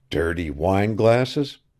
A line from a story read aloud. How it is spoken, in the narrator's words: muttered